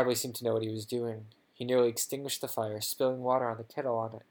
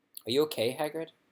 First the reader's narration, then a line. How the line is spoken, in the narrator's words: said Harry